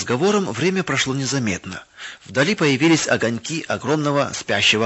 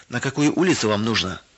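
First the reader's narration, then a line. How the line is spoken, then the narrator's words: Plain. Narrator (Russian): спросил дядя Вова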